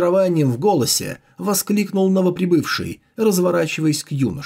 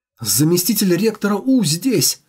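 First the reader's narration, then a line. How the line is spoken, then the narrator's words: Joyful exclamation. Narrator (Russian): радостно воскликнул Мочень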